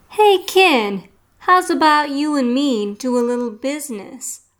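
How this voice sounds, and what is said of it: Brooklyn accent. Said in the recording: “A Brooklyn accent called out”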